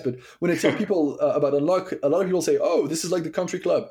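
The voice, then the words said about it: French accent. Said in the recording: “I'm French, as you might have guessed with my accent”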